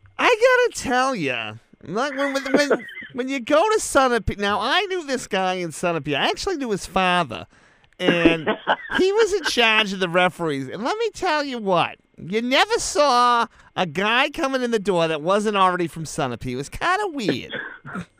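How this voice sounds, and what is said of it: Imitates another person's voice. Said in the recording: “this impersonation of Joel Jackson”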